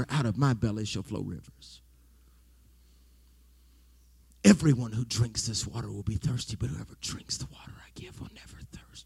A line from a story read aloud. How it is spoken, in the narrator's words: Jesus whispered to her